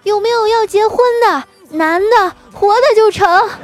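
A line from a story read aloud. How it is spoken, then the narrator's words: Drunken woman shouting. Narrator (Chinese): 奇葩美女，看来呢是喝醉了啊，站在桥上大喊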